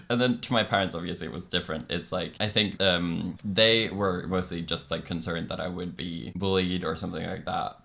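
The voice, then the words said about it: Norwegian accent in English. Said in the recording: “because my accent or something, so they were like, wait, are you gay or just Norwegian?”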